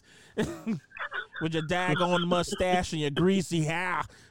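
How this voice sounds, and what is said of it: Exaggerated Boston accent. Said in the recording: “My Boston fucking accent. I'm really from Boston”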